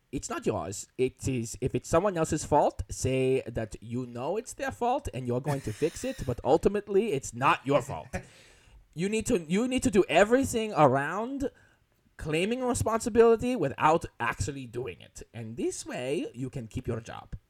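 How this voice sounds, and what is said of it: Put-on German accent. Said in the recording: “all I'm doing is this accent? Is it okay that I'm just viciously doing this accent? ... he's German”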